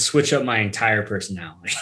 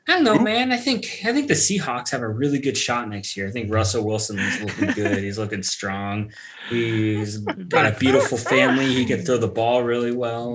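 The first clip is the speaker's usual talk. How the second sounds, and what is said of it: Slightly higher-pitched put-on voice. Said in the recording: “your voice got a little bit higher in that impersonation.”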